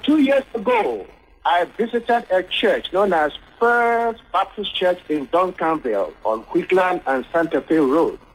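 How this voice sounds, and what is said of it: Noticeable non-native accent. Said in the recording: “My accent, please. You have to get used to a little bit.”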